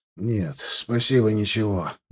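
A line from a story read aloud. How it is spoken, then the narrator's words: Grumbled. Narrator (Russian): буркнул Косой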